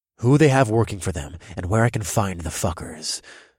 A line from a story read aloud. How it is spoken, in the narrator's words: I snarled